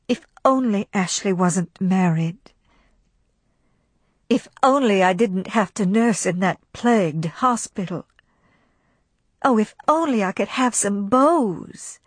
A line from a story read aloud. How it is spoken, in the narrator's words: she sighed and thought